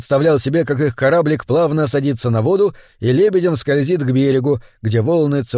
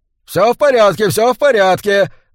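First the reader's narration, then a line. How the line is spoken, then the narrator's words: Shouting. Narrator (Russian): закричал губернатор Бенбридж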